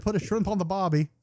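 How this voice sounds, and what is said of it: Bad put-on Australian accent. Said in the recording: “That's the fucking worst Australian accent ever. ... This fucking American and his stupid fucking accents.”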